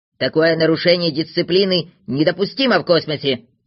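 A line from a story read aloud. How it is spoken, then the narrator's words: Irritated grumble. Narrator (Russian): с раздражением проворчал Знайка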